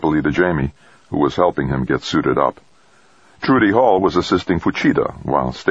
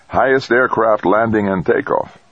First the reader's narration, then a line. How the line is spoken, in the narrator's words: Rodriguez chattered cheerfully